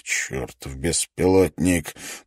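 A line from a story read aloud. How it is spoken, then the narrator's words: Mutter. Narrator (Russian): пробормотал профессор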